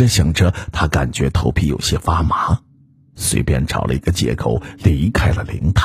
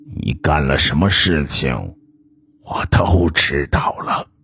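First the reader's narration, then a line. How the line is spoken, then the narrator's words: Cold imagined accusation. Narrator (Chinese): 照片中的外公冷冷的似乎在说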